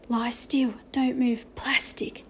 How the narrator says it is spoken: whispered into it

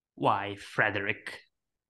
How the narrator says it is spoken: King said in a malicious tone

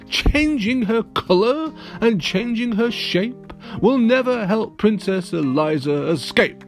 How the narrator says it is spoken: The wizard just laughed his horrible laugh, and said

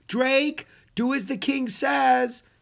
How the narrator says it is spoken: his mother called out

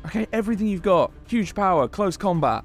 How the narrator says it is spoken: Chuck shouts

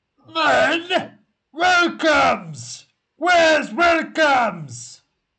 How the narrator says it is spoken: somebody at the entrance shout out

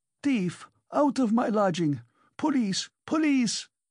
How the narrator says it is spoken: yelled Amalia Ivanovna

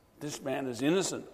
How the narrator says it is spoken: I gasped across at him

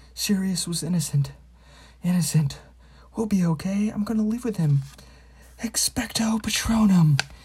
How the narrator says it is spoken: he gasped

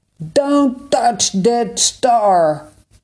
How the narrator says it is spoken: a voice shouted

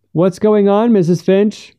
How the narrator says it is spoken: he shouted at her

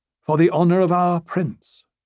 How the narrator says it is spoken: said she

